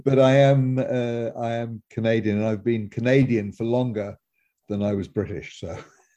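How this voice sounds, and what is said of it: British accent. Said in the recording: “I was born in Britain and I've still got my British accent. ... Yes, you do.”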